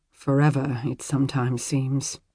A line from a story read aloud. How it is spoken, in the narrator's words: he murmured